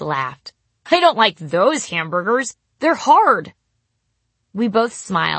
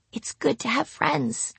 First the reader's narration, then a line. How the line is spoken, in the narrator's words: I whispered